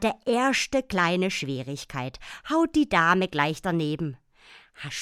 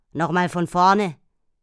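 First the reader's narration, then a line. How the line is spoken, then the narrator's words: Growled. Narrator (German): knurrte es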